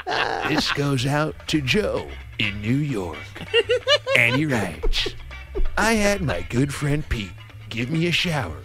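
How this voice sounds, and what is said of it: Casey Kasem radio-host impression. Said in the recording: “I love that he's Casey Kasem... we have faded into a different impersonation. Casey Kasem... Dick Vermeil is Casey Kasem as Pete Rose. Old guys get the same voice... That's a long distance dedication”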